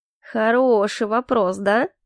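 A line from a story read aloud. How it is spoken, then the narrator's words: Extremely venomous voice. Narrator (Russian): произнес он до нельзя ядовитым голосом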